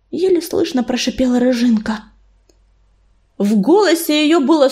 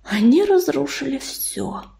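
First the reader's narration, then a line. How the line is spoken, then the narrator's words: Breathless exhale. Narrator (Russian): выдохнул Ежевика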